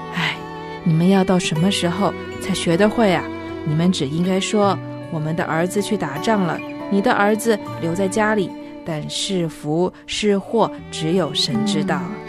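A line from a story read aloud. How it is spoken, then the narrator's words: Old man sighing. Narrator (Chinese): 这老人呐，他叹了一口气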